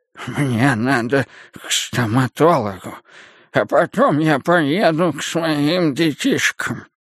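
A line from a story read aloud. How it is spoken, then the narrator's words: Toothless breathy mumbling. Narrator (Russian): Мужчина, шамкая беззубым ртом, с придыханием повторял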